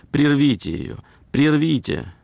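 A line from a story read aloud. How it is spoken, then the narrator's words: Lady exclaiming. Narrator (Russian): одна дама воскликнула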